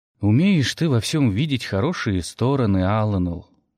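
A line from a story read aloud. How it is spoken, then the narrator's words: Sighing. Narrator (Russian): вздохнул Дар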